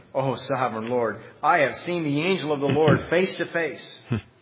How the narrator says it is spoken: Gideon realized that it was the angel of the Lord, he exclaimed

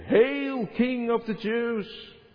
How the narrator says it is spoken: mockingly greet him

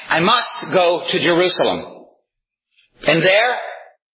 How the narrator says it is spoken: He said

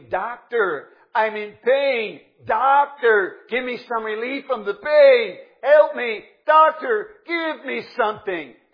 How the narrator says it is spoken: scream

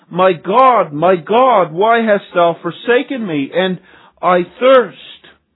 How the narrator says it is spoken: He cried out

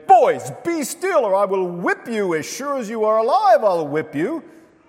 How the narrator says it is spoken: in an irritated voice, he exclaimed

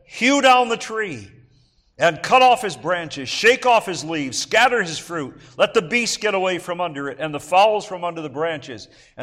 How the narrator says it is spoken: he cried aloud and said

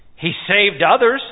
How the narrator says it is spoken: they scoffed

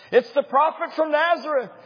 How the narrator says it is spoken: he cried with tears in his eyes

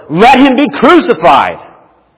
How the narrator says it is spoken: shouted all the more

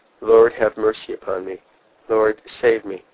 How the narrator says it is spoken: In the agony of his soul he cried out

